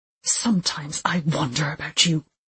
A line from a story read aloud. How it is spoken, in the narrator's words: she spat, disgust lacing every word